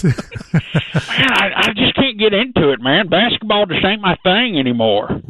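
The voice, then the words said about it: Put-on Texas accent. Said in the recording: “you don't sound like this. Are you putting on a voice for us? ... Got the Texas accent.”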